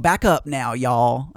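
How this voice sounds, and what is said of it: Exaggerated Southern accent. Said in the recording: “He doesn't say it with a Southern accent. I don't know why I had to make my Southern accent even worse”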